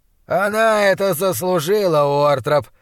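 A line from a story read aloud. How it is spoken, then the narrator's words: Growled. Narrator (Russian): прорычал Чалнер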